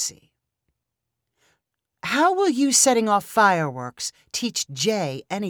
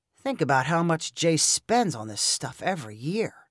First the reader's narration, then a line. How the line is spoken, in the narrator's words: Lyle mumbled